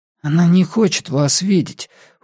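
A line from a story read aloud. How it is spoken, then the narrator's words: Boy's sullen hoarse reply. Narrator (Russian): угрюмо и хрипло ответил какой-то мальчик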